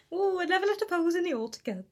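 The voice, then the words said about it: Poor put-on Welsh accent. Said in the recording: “I don't know why she's Welsh... So suddenly Mrs. Nesbitt is Welsh, which is not an accent I'm going to keep trying because I'm terrible at it.”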